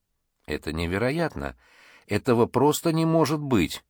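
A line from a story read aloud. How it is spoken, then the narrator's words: Muttered under breath. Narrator (Russian): бормотал в полголоса Чен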